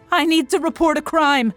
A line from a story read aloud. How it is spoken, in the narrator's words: he shouted